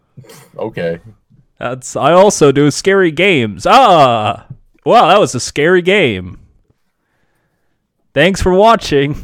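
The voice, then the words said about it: Deeper imitated YouTuber voice. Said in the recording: “Is this your Markiplier? ... yes, it's my Markiplier. You just got to do this little deeper voice.”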